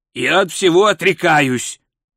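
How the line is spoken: Irritated. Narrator (Russian): раздраженно заявил Золотуха

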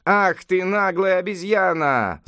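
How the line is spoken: Group shouting. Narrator (Russian): закричали они

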